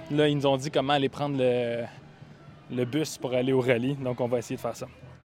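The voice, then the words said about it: Canadian French accent. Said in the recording (French): “mon accent canadien”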